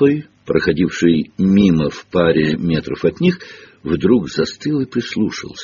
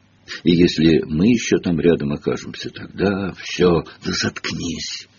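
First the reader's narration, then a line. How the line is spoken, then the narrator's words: Whispered. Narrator (Russian): прошептал Гарри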